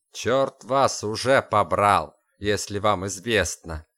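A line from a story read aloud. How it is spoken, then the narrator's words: Spiteful remark. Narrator (Russian): Злобно заметил офицер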